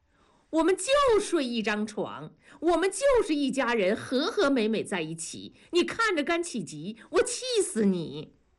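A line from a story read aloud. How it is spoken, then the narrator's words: Laughing. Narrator (Chinese): 庄嫂反而笑了说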